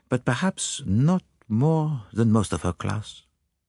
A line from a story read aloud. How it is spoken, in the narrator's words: he murmured